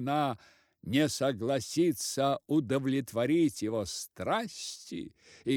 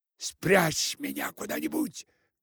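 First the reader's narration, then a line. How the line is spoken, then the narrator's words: Whisper. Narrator (Russian): шептал голова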